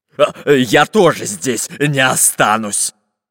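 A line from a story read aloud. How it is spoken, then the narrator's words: Barked. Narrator (Russian): рявкнул Буль-Буль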